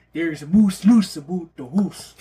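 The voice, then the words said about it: Put-on Canadian accent. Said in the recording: “There's the Canadian accent coming out.”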